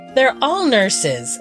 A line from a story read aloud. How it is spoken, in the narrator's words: Aristea exclaimed